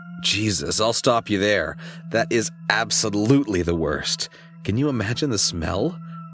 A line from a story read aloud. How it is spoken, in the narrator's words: She giggled